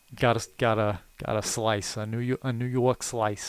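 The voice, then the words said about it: Put-on New York accent. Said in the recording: “the New York accent... That's pretty slick, man. I like it.”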